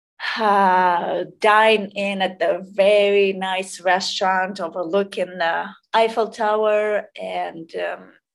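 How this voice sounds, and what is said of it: Speaks with a non-native accent. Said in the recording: “my accent”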